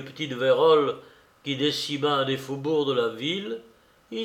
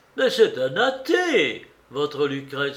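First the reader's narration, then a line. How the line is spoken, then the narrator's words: Bishop exclaiming. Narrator (French): s'écriait l'évêque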